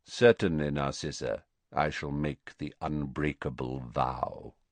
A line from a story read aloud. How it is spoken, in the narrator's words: he said quietly